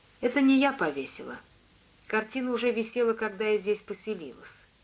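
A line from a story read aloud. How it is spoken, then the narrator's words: Quiet woman. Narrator (Russian): женщина тихо сказала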